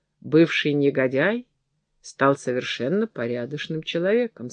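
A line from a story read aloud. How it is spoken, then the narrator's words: Plain. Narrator (Russian): сказала она маркизе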